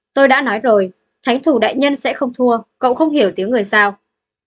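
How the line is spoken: Irritated shout. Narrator (Vietnamese): Người nhà họ Dục kia có chút tức giận, trừng mắt quát Lâm Minh

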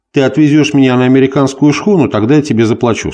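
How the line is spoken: Plain. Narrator (Russian): сказал он

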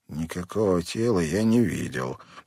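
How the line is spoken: Whisper. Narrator (Russian): прошептал Хэнк

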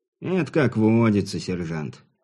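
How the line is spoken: Theatrical sigh. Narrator (Russian): картинно вздохнул вор

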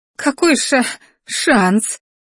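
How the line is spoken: Stammering sob. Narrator (Russian): заикаясь, всхлипнула артефакторша

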